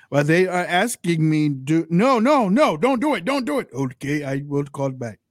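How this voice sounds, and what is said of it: Put-on Russian accent. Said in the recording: “I love your accents, by the way. ... my Russian's bad. I'm just watching Hollywood actors do it”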